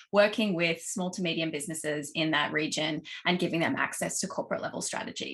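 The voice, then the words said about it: Australian accent. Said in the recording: “as you can probably tell from my accent, um, based in Australia”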